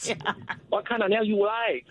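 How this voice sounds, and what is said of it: Put-on Vietnamese accent. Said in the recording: “I can do a really good Indian and Vietnamese accent.”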